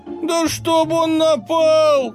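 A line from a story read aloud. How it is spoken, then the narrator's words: Guffawing. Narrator (Russian): захохотал Дундук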